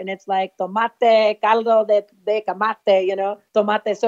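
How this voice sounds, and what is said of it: Spanish words with native-sounding pronunciation. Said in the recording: “when you spoke, you had the perfect accent”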